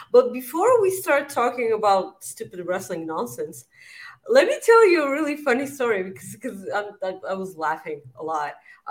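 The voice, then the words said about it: Slightly off, sick-sounding voice. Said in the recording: “my body is trying to get sick ... I feel like my voice is weird.”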